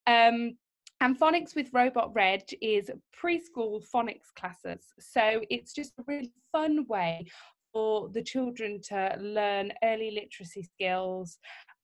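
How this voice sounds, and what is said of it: Slight northern English accent. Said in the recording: “I actually grew up north, so I've got a bit of a northern accent”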